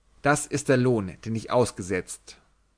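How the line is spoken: Hard voice. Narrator (German): sagte, ohne sie anzusehen, mit harter Stimme

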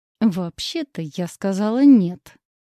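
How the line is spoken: Through gritted teeth. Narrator (Russian): процедила сквозь зубы

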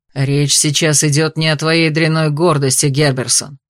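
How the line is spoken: Growled retort. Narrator (Russian): рыкнул в ответ Алистер

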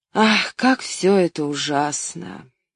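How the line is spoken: Sigh. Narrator (Russian): вздохнув

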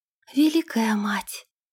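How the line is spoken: Whisper. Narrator (Russian): прошептала принцесса

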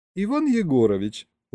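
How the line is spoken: Warm, smiling. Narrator (Russian): ласково улыбнулась Марина

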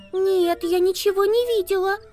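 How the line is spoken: Squeak. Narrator (Russian): пискнула

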